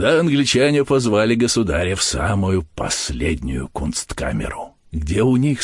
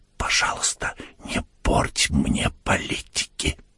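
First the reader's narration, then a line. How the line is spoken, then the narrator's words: Said quietly. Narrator (Russian): тихо сказал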